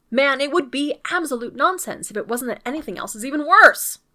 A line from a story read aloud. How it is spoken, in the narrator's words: cried MacDonald